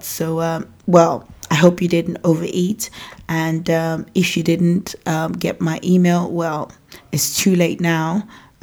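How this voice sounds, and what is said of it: Nigerian African accent. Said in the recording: “I have an African accent because I was born and raised in Nigeria”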